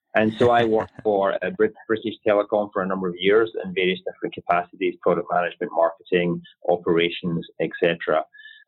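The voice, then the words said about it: Non-American accent. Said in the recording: “As I'm sure the listeners can tell from my accent, I'm not native to the US.”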